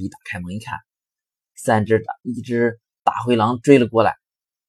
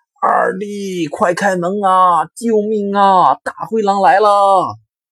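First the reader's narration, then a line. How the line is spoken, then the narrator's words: Shouting while running. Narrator (Chinese): 老大……边跑边喊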